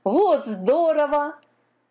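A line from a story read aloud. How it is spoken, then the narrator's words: Laughing. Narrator (Russian): засмеялся морской конек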